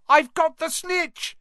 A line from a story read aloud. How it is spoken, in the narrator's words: he shouted